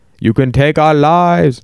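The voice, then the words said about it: Badly put-on accent. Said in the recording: “That's a terrible accent.”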